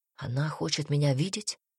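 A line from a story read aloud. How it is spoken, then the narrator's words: Hoarse question. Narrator (Russian): спросил Альберт хрипло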